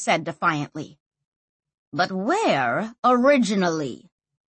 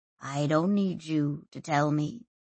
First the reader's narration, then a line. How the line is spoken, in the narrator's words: he said quietly